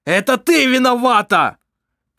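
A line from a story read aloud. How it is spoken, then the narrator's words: Shout. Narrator (Russian): крикнул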